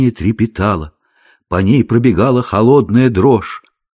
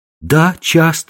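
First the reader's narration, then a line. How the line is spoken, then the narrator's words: Girl's exclamation. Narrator (Russian): воскликнула девушка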